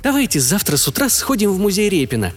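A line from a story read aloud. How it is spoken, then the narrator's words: Deliberately cheerful voice. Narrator (Russian): нарочито бодрым голосом предложила Майя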